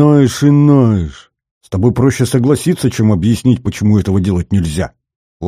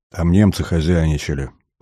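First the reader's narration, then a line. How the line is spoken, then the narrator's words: Muttering. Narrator (Russian): пробормотал Мезенцев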